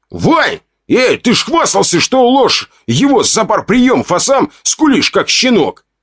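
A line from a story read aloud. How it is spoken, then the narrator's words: Shouted, voice breaking into a shriek. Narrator (Russian): крикнул он, и его голос сорвался на визгливой ноте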